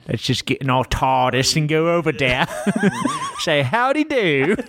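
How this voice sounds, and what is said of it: Unconvincing put-on British accent. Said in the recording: “I don't know what accent you're doing. ... thinks British people talk like I don't know what.”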